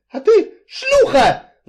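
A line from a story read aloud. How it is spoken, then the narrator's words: Furious shriek. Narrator (Russian): взвизгнул Энси, выходя из себя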